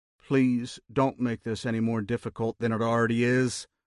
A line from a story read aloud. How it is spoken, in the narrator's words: Hoffman said